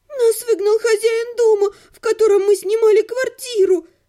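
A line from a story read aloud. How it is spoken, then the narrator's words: Tragic voice. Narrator (Russian): трагическим голосом поведала мне Томна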